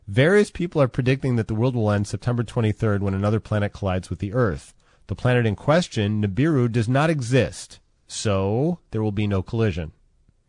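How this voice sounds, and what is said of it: Impression of Fred Trevelyan reading. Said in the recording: “This is NASA's website speaking. I'm doing an impression. I'm like the Fred Trevelyan of NASA.”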